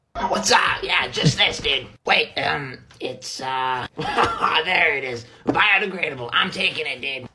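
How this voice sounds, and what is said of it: Imitates another person's voice. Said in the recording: “Steve-O's voice is fucked ... It's a very good impression”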